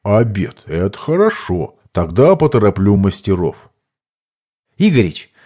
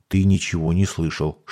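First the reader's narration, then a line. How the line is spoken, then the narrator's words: Whispered. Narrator (Russian): шепнул я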